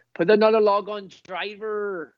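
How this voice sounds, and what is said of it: Weak put-on Swindon accent. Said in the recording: “My best Swindon accent is ... that's your best Swindon accent ... The best I could do, man. Sorry. It's not very good.”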